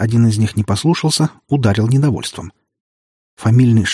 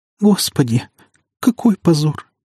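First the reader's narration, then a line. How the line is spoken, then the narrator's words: Words amid quiet sobs. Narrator (Russian): разобрал я среди тихих всхлипов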